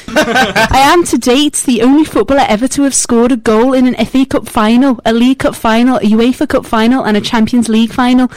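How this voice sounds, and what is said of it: Scouse accent, Steven Gerrard impression. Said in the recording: “That was like every accent ... That was a cracking Scouse accent ... Steven Gerrard.”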